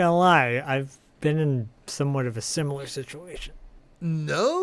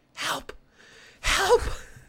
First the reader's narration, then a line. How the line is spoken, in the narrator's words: Brant starts whispering